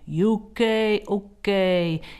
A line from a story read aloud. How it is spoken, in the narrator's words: in the booming voice that they used on the programme